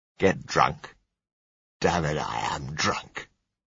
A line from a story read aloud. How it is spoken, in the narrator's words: he said scornfully